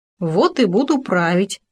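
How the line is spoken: Gopher's scoffing snort. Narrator (Russian): хмыкнул суслик

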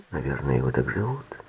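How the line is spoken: Quiet. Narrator (Russian): Норман сказал тихонько

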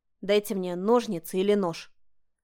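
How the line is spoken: Curt request. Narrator (Russian): попросила отрывисто

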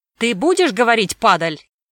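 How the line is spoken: Angry shouting official. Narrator (Russian): закричал на привязанного другой служитель благочинной палаты

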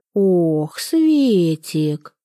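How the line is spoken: Velvety purr. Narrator (Russian): бархатно промурлыкал Пожарский

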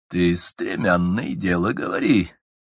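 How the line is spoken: Insinuating, ingratiating. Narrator (Russian): вкрадчиво молвил государь

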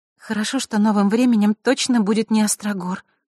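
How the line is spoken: Sighing. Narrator (Russian): вздохнула Василиса

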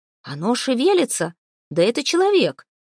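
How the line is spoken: Astonished shout. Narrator (Russian): в изумлении закричал Торберг Филин, исполнявший должность вперед смотрящего

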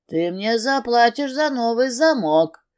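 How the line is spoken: Drunken grumble. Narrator (Russian): проворчал накачанный алкоголем гитарист

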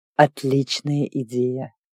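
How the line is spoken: Purred. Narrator (Russian): Он мурлыкнул

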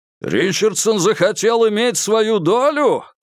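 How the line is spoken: Shouted. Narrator (Russian): крикнул Курц

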